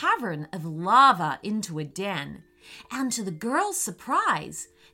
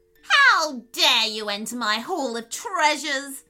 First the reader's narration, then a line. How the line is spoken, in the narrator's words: She screeched